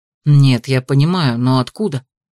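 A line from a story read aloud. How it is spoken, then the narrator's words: Sighing confession. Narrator (Russian): Я вздохнула и призналась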